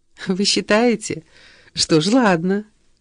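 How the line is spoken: Laughing. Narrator (Russian): рассмеялась Шеба

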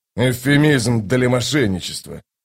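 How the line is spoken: Grumbling. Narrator (Russian): проворчал Кол

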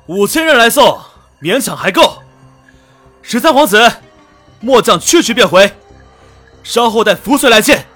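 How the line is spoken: Loud over battle cries. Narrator (Chinese): 在雄浑动魄的喊杀声中，石庭云高声道

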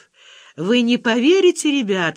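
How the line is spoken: Chuckling. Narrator (Russian): хохотнула Валя

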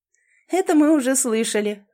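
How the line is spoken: Ringing laugh. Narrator (Russian): звонко засмеялась Элизабет

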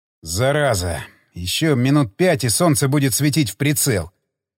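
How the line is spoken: Grumbling. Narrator (Russian): проворчал майор

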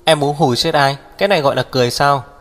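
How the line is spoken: Displeased loud shout. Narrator (Vietnamese): Hắc Viêm Triệt không vui vừa lông mày nhíu, hét lớn

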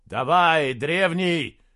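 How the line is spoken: Shouted. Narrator (Russian): закричал Джирики

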